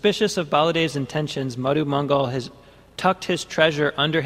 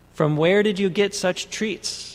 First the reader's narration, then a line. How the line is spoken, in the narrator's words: Balaram asked him